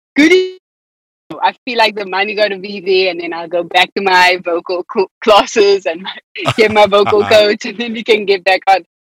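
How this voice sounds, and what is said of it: South African accent. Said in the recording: “I've been sounding more and more South African living here than I did in South Africa ... I've embraced my accent so much more since being here”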